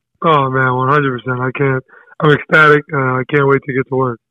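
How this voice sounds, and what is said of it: Hoarse, worn-out voice. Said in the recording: “Is your voice normally like this, or am I detecting a little bit of hoarseness? ... you're definitely detecting that ... My voice is kind of gone right now”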